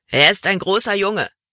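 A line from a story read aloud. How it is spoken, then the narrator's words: Plain. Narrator (German): sagte Rix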